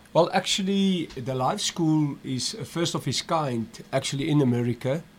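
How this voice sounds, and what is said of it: South African accent. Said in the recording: “I'm originally from South Africa. ... Seemed like I recognized that accent.”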